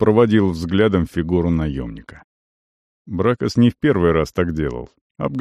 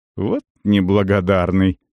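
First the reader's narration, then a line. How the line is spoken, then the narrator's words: Snorting. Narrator (Russian): хмыкнул Кирк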